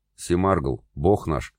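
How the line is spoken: Good-natured deep bass. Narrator (Russian): добродушно пробасил брюнет с дубиной

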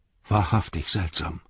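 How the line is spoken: Plain. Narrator (German): sagte Legolas

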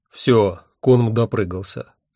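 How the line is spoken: Grim. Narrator (Russian): мрачно сказал победитель

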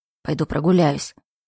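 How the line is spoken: Grumbling mutter. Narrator (Russian): Джейкоб, который пробурчал

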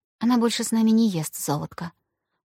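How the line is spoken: Reply with a sigh. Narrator (Russian): ответила ему Аня и вздохнула

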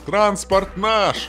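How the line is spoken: Shouting. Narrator (Russian): крикнул комрад

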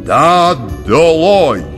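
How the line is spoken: Shouted. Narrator (Russian): крикнул

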